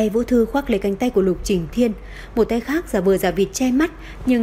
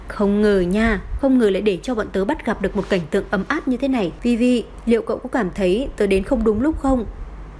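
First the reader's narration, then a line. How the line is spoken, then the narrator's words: Continuous muttering. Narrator (Vietnamese): Trong miệng cô còn không ngừng lẩm bẩm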